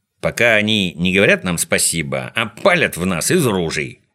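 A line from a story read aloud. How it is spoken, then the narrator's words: Grumbling. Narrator (Russian): проворчал Шпунтик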